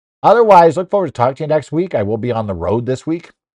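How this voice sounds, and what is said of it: Slightly hoarse voice. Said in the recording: “I'm a little hoarse today because I've been talking this last week”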